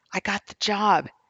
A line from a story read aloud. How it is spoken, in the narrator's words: Such a huge smile as he exclaimed